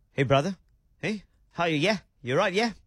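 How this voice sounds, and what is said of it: Imitated English accent. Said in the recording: “back with an accent ... went over to England ... came back and just went”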